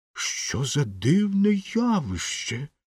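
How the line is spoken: Exclaiming. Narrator (Ukrainian): вигукнув професор орнітології

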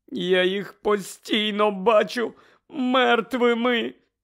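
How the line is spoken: Moaning. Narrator (Ukrainian): стогнала місіс Уізлі

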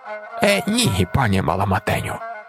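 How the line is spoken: Hissing. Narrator (Ukrainian): просичала тітка Леньо

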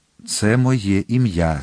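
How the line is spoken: Calm. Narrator (Ukrainian): спокійно мовив Атос

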